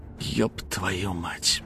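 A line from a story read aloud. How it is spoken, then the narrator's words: Whispered. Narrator (Russian): прошептал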